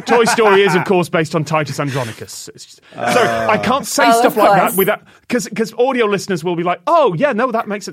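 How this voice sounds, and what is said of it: British accent. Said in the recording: “I've got a British accent and I sound confident”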